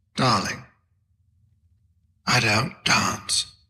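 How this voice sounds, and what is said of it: Whispered put-on British accent. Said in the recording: “even does a voice. ... he's mostly a whisperer. ... he does the British accent”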